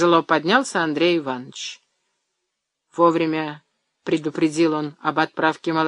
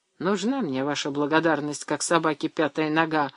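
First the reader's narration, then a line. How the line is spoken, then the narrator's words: Muttering into beard. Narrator (Russian): в бороду пробурчал Анисимов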